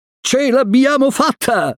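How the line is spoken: Shout. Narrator (Italian): gridò Mowgli

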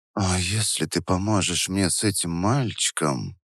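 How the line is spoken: Whispering. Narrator (Russian): продолжала Вера шепотом

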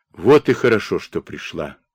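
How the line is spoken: Weary greeting. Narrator (Russian): устало приветствовал гостью Бондарь

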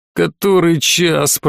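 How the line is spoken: Grumble. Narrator (Russian): проворчал

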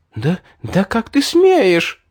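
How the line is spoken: Indignant girl's shout. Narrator (Russian): возмущенно выкрикнула девушка

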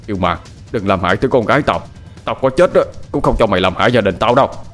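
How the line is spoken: Shouting. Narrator (Vietnamese): Ông Hạc quát lên

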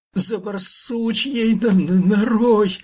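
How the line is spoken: Squealing through pain. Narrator (Russian): завизжал Фир, превозмогая боль

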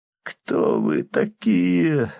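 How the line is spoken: Strained, mustering courage. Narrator (Russian): выдавил из себя дезертир, собрав все остатки мужества

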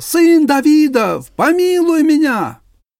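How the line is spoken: Shouted. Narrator (Russian): Он кричал

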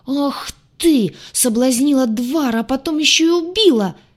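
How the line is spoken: Shriek. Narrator (Russian): Завизжала рыжая

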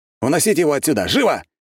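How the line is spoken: Shout. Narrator (Russian): крикнул я

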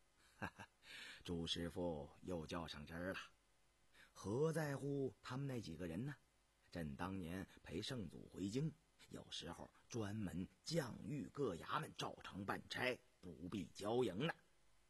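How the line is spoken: Light laugh. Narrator (Chinese): 雍正一笑

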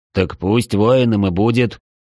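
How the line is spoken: Displeased grumble. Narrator (Russian): недовольно пробурчал Улдарон

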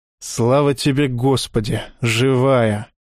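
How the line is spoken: Relieved exhale. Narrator (Russian): выдохнул Александр

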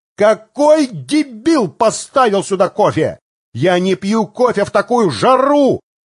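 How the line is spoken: Shout. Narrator (Russian): выкрикнул он

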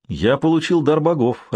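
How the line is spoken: Joyful exclamation. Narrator (Russian): радостно воскликнул хан

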